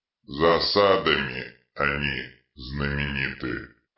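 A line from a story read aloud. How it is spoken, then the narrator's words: Mutter. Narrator (Russian): пробормотал детрит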